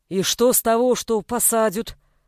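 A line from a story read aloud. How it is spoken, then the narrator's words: Deep bass voice. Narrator (Russian): басил голос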